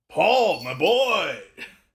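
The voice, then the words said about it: Imitates another person's voice. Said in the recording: “The voice that I do have is a really good Jason Momoa”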